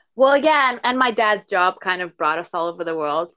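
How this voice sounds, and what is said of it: American-sounding accent. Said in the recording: “my accent does come from the US”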